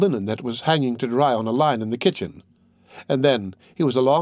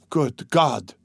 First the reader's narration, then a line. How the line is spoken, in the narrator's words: he muttered